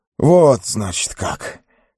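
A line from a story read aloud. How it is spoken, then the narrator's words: Hoarse. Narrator (Russian): хрипло проговорил он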